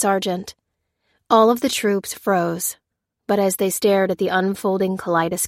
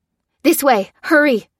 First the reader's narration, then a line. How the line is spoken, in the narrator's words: cried Lucy